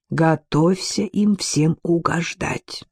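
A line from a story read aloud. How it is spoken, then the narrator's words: Whisper. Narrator (Russian): прошептал он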